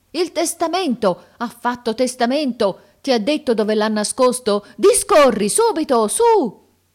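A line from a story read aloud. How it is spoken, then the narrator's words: Unanimous group shout. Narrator (Italian): il grido che emisero fu uno solo ed unanime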